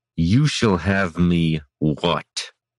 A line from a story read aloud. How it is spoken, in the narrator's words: Brennus asked through gritted teeth